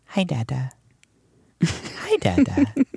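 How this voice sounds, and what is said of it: Imitates a small child's voice. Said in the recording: “great impersonation”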